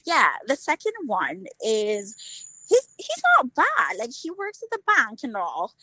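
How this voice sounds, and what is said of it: Northern English Newcastle accent. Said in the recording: “That's Northern England accent ... Newcastle ... your accent is so different from your regular London ... that accent is kind of up there”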